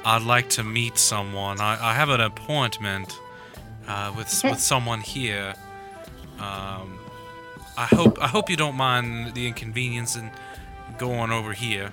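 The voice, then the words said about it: Attempted Southern accent. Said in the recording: “it is really hard to do a southern accent voice.”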